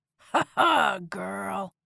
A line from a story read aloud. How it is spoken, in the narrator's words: he growled